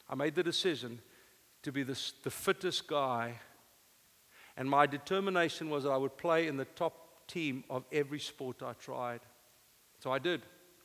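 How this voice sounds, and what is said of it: Rough non-native English accent. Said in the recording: “English is my second language. I'm humored for my rough accent.”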